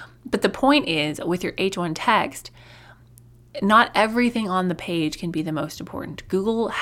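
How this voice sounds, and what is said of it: Usual voice. Nothing is said of it.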